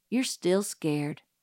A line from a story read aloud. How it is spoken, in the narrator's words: murmured Dill patiently